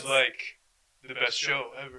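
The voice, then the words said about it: Imitates a TV character's voice. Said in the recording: “your best Kendall impression... That's pretty good... That's a good like, impression, it's great.”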